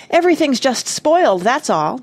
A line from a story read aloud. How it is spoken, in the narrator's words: Jane cried